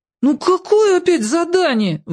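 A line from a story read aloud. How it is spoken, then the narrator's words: Wailing. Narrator (Russian): взвыл я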